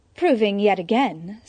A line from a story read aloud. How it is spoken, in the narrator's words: Selina purred